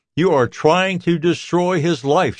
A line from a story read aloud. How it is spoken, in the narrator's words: shouts